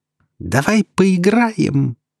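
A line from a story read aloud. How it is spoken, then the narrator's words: Giggling. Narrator (Russian): хихикнула она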